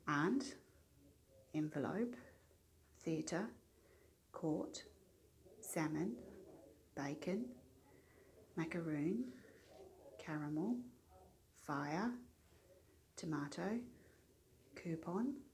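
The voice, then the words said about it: Soft Australian accent, English-tinged. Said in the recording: “how Australian I sound ... my accent sounds a lot more English ... you've got a London accent ... I definitely do think I've got one, but it's quite soft.”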